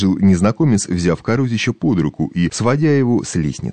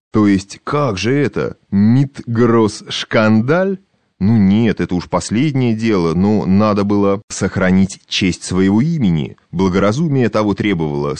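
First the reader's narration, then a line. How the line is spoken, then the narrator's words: Through gritted teeth. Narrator (Russian): сквозь зубы процедил Карусич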